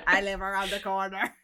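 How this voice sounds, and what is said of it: Attempted Swedish or JFK accent. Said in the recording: “spot on Swedish accent ... That's not a Swedish accent or a JFK accent.”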